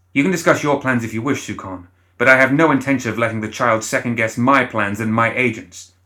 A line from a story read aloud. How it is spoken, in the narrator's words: Luhom snapped